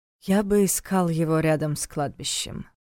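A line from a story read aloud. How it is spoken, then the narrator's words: Flat colorless voice. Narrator (Russian): бесцветным голосом предположил Войтах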